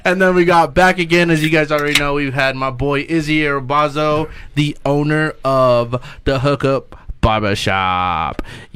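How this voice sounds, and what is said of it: Loud, yelling into the microphone. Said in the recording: “you're yelling in the microphone ... It sounds like that, dude.”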